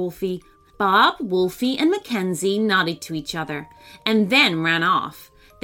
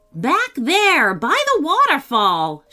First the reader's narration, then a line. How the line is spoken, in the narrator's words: shouted Bob